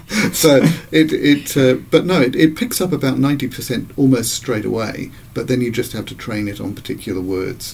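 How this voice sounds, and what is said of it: Thick, hard-to-understand accent. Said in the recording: “Your thick accent, is really hard to understand.”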